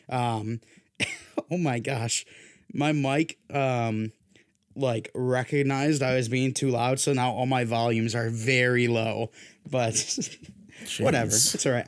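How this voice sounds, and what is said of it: Hoarse, damaged voice. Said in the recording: “my voice is like this ... my voice was dead”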